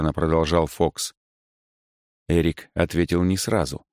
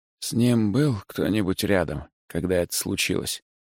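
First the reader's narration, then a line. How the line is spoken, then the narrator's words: Quiet question. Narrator (Russian): тихо спросил Фокс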